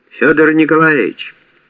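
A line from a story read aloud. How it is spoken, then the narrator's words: Shouted. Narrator (Russian): Вася крикнул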